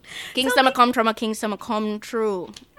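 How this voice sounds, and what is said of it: Jamaican accent. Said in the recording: “That's a beautiful, beautiful accent... Jamaican”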